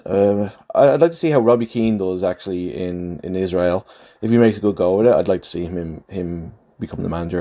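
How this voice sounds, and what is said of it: Dublin Irish accent. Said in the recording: “I'm losing my Dublin accent”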